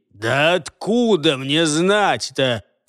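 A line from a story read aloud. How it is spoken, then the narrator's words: Roaring. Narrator (Russian): проревел Джаргул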